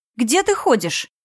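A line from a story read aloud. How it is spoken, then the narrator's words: Female friend exclaiming. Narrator (Russian): воскликнула подруга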